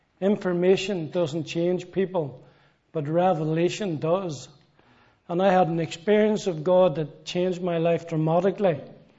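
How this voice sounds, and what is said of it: Northern Irish accent. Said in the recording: “As you can tell from my accent ... I come from Belfast, Northern Ireland”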